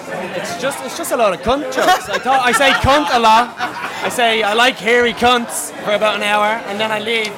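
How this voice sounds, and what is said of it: Irish accent. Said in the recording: “an Irish accent”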